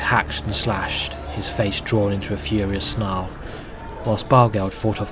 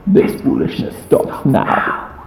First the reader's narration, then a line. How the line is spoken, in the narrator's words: it said, in a spidery voice that felt both far away and too close at the same time